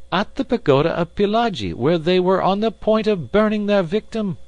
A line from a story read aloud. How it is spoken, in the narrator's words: cried Passepartout warmly